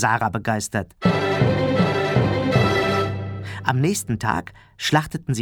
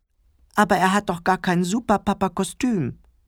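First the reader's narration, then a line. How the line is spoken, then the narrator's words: Whining. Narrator (German): jammerte Clemens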